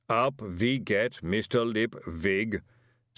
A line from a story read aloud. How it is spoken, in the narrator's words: said the booming voice